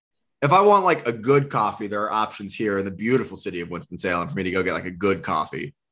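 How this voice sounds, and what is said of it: Sarcastic tone. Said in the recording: “being sarcastic ... the beautiful city part okay. was sarcasm.”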